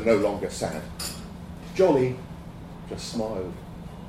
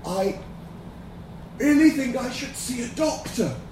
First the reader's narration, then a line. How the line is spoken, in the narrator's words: Johnny rasped